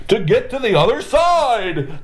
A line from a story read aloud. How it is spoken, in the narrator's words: howled the Emperor